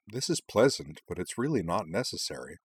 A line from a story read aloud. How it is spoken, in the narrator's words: Anthy murmured to Utana